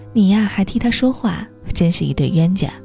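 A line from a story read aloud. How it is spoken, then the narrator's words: Tender, laughing mother. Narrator (Chinese): 妈妈却爱怜地摸着许天浩的头笑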